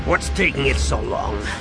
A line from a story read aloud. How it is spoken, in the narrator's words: Han growled